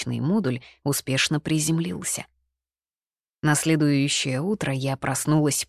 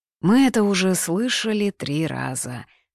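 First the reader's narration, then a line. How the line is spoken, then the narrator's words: Tired. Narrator (Russian): устало произнес Алексей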